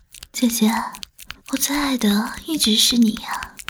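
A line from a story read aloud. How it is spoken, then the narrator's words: Soft, pitiful. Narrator (Chinese): 小何哀怜的，低声说道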